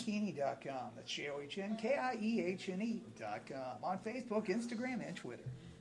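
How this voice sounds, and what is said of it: Radio DJ voice. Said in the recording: “some DJ voice”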